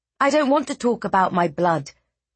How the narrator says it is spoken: Eliana snapped

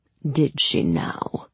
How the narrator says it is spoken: His voice was ice

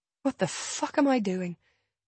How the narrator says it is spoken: I murmur to myself

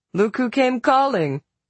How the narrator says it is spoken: Rosalie laughed

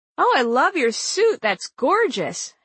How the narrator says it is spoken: Hillary exclaimed

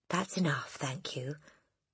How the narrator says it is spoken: the boy murmured

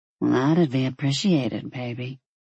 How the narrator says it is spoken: she murmured

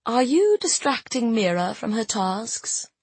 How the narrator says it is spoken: I asked, keeping my tone light

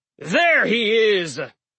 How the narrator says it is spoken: yelled Halfborn Gunderson, berserker extraordinaire, speaker of the obvious

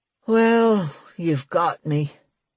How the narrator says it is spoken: he said, drawling a little

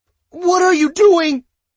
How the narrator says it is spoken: His voice was hoarse, all the yelling the previous hours coming back to bite him

